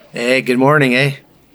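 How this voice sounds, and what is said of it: Poor put-on Canadian accent. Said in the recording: “his really sad accent for Canada. ... Very sad accent for Canada.”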